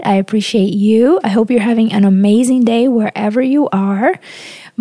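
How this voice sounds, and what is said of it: Slightly raspy, strained voice. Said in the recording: “My voice is a little raspy today ... it's been a lot for my voice cords”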